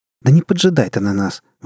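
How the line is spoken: Exclaimed. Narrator (Russian): воскликнула вирусолог

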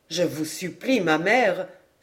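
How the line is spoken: Distressed exclamation. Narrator (French): s'écria René désolé

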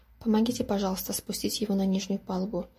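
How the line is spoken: Quiet request. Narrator (Russian): тихо попросила мисс Маквей

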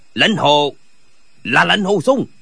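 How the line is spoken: Terrified shout. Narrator (Vietnamese): Gã vừa trông thấy Lệnh Hồi Xung thì vô cùng kinh hãi quát

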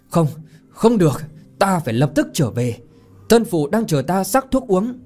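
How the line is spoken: Anguished loud cry. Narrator (Vietnamese): Chàng nghĩ đến thân phụ đang bệnh nặng thì gào to

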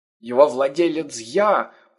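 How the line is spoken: Old man groaning. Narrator (Russian): простонал старик

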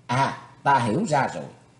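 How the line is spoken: Sudden realization exclamation. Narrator (Vietnamese): Thủy Tuấn Hạo trầm ngâm giây lát, hỏi nhiên hiểu ra vấn đề liền kêu lên

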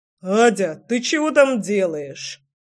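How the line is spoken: Deep bass voice. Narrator (Russian): пробасил Антошка

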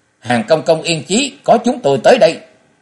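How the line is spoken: Furious resounding shout. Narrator (Vietnamese): Châu Hoài Ngọc tức giận tràn hông thét lên một tiếng lẫy lừng

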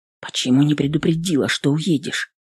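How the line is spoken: Quiet question. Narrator (Russian): спросил он все так же тихо

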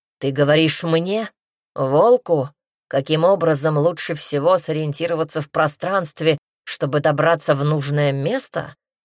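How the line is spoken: Growl. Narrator (Russian): зарычал он

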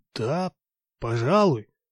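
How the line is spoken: Surprised mumble. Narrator (Russian): промямлил Егор с удивлением

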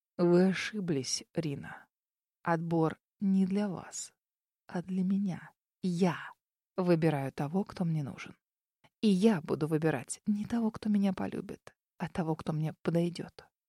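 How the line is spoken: Whisper in ear. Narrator (Russian): прошептал на ухо

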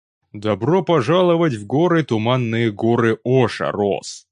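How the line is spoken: Plain. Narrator (Russian): сказал Ворин

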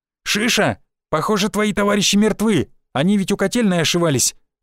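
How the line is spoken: Shouted while running. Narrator (Russian): выкрикнул я на бегу

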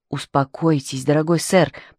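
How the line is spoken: Whisper in the ear. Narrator (Russian): прошептал Твайнинг на ухо мистеру Гиддингу

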